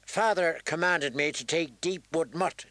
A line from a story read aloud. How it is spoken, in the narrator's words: she snapped